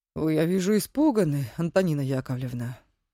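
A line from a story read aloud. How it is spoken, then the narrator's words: Soft, gentle. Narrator (Russian): мягко произнес конферансье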